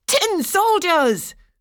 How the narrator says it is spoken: cried several of the boys

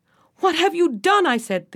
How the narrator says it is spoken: shouted

